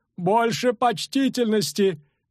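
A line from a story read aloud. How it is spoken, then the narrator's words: Brittle-voiced lady shouting. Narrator (Russian): крикнула ломким голосом дама в Раброне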